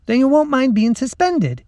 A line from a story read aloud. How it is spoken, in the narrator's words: said brightly